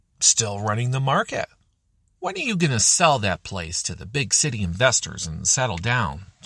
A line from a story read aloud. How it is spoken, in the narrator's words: half coughed as she spat out the words